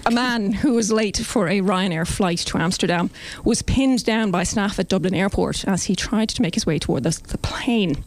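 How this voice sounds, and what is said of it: Irish accent. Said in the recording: “Can you do it in the accent? ... I always do it in the accent.”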